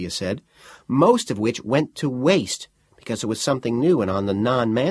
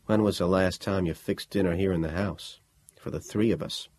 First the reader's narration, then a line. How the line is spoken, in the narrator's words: Ian said more quietly